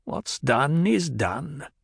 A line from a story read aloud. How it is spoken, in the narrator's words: the old woman muttered